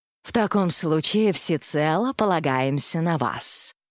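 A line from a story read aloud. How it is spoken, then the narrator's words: Purring. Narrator (Russian): промурлыкал Тимофей Иванович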